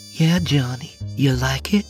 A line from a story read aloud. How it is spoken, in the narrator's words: She purred